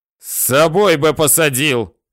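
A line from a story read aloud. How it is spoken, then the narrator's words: Roared. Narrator (Russian): взревел Головачев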